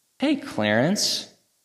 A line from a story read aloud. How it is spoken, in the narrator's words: chirped huge smile on his face